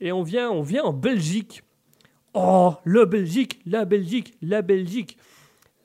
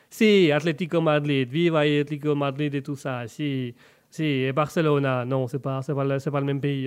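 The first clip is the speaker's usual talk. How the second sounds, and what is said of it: Put-on Italian accent. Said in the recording (French): “Je fais bien l'accent italien, c'est fou ça ... peut-être sans accent cette fois-ci”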